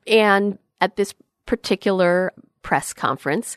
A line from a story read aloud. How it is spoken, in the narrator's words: she stammered a bit